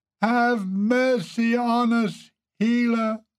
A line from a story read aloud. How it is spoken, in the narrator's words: they all yelled